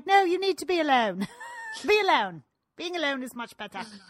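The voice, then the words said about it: Very poor put-on British accent. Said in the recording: “that is a very poor British accent ... The worst I've ever heard.”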